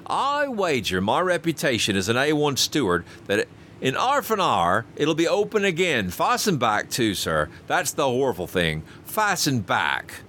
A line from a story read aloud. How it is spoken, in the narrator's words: continued Robert triumphantly